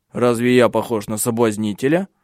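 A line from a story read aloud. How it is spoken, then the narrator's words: Angry question. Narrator (Russian): сердито спросил Тенгель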